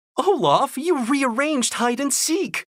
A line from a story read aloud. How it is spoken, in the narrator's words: Anna said with a chuckle